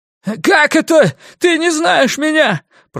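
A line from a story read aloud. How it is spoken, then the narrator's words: Piercing shout. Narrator (Russian): пронзительно выкрикнул он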